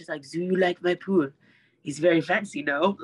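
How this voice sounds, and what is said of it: Bad fake French accent. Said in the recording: “I had this French accent ... this fake French accent and I'm terrible at it ... that's not even a great French accent ... shitty European accent”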